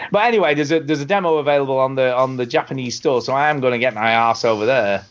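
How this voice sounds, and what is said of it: Usual voice. Nothing is said of it.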